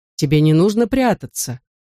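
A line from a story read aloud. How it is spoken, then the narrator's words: Forced calm, persuasive. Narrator (Russian): проговорил мэр Своуп, стараясь, чтобы его голос звучал спокойно и убедительно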